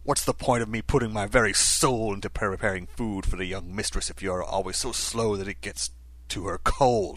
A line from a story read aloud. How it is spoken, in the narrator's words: snarled the chef